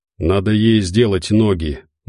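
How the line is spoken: Gloomy confirmation. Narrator (Russian): мрачно подтвердил Тихий

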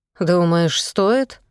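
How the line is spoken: Soft. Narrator (Russian): мягко заметил Белов

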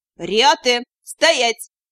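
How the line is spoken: Barked command. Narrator (Russian): леди Митас, и она рявкнула

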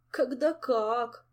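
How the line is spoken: Groaning. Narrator (Russian): простонал вождь и идеолог

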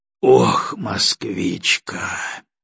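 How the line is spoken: Heavy sigh. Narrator (Russian): тяжело вздохнул Егоров

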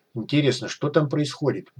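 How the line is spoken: Muttering under breath. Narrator (Russian): буркнул док под нос

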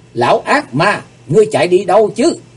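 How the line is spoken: Loud shout. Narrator (Vietnamese): Hắc Phượng Hoàng hét to lên

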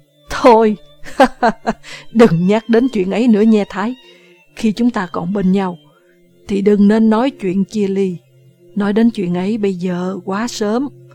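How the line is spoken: Laughing loudly. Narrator (Vietnamese): Nam cười to, nói

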